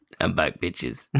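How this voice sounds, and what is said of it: Deliberately deep voice. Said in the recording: “did a deep voice”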